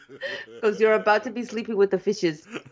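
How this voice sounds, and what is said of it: Scarface-style gangster accent. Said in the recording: “I'm doing a totally different accent. I'm doing like, say hello to my little friend, and you're doing Italian.”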